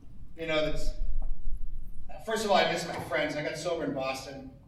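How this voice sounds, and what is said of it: Choked-up, emotional voice. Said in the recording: “I'm a little choked up... I got choked up”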